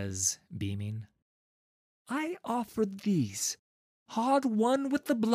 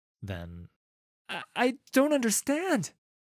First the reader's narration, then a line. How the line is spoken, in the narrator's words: the voice stammers